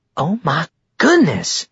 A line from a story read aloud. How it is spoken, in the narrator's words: Whitney exclaimed